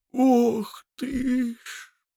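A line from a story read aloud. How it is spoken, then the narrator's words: Groaning. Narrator (Russian): простонал трактирщик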